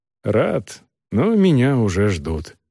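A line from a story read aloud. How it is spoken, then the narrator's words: Plain. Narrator (Russian): ответил солдат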